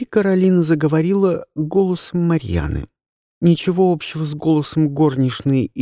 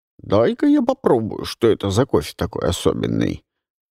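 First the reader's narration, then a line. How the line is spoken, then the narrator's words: Deep imitated butler voice. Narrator (Russian): снова пробасила Каролина голосом мажордома и переключилась на свой голос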